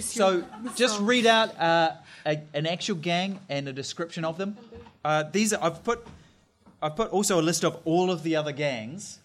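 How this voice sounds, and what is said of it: Speaks with own regional accent. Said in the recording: “Sorry, my accent.”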